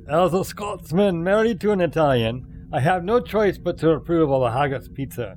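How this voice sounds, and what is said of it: Put-on Scottish accent. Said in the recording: “Even in a Scottish accent.”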